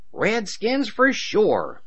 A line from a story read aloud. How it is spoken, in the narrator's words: Jerry exclaimed